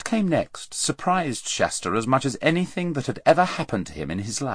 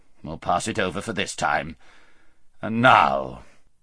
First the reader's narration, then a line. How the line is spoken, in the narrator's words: grumbled the king